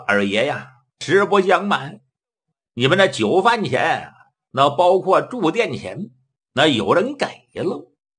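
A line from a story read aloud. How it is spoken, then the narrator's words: Smiling waiter. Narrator (Chinese): 伙计一笑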